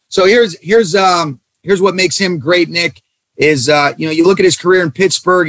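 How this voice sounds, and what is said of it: Hoarse, strained voice. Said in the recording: “I'm losing my voice from having to yell in that tent”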